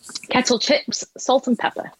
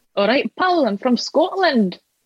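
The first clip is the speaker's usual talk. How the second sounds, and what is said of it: Put-on Scottish accent. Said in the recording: “can you do the Scottish accent for me now?”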